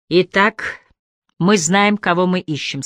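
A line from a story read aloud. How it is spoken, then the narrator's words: Plain. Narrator (Russian): сказал Харри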